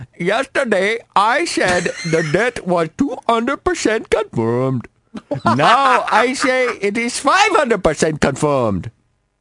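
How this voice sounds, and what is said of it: Put-on Asian accent. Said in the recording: “I got to get my accents ready ... I'm like from Asia ... let me get into character”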